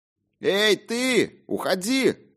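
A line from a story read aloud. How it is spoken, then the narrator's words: Shouting. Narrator (Russian): кричал мне священник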